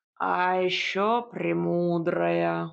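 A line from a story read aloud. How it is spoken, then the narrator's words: Reproachful drawl, cat. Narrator (Russian): укоризненно протянул кот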